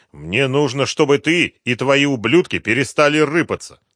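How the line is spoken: Angry reply. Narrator (Russian): зло ответил Слепнев

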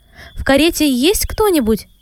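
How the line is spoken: Distant shout. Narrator (Russian): издали крикнул незнакомец кучеру

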